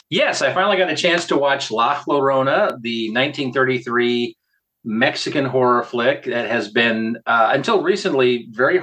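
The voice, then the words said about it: Croaky, frog-like hoarse voice. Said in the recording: “You sound like a frog. ... I know. I stirred it up a little bit.”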